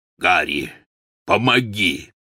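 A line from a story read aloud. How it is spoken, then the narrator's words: Hoarse call. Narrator (Russian): хрипло позвал Гаррит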